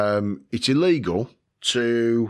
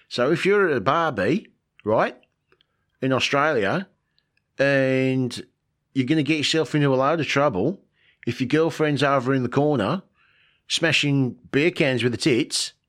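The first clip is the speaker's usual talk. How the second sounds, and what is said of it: Put-on Australian accent. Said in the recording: “we're heading to good old Australia ... I'm going to stop doing the accent now because it's f- stupid”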